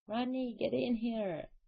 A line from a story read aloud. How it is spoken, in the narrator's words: Laura moaned